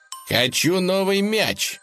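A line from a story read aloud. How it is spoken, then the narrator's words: Shouting at full strength. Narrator (Russian): что есть мочи, закричал дружок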